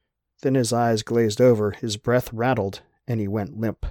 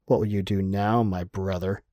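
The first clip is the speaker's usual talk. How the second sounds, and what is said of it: Hoarse whisper. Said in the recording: “hoarse whisper”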